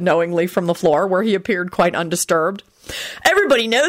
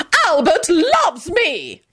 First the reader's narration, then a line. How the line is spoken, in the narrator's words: Caroline howled stridently